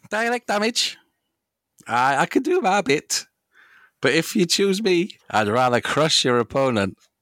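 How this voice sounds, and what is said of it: Attempted Irish accent. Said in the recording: “That was supposed to be an Irish accent.”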